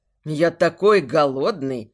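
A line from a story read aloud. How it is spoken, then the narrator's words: Growling. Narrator (Russian): С рычанием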